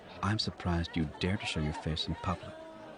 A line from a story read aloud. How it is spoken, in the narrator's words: Xana whispered